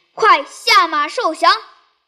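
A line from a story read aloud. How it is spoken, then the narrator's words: Fierce shout. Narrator (Chinese): 文丑厉声大叫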